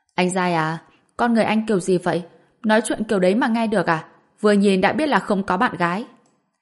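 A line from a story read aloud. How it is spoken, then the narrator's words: Angry young woman. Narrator (Vietnamese): Cô gái nghe xong thì tức giận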